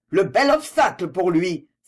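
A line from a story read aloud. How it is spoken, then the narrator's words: Exclaiming. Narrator (French): s'écria Prémont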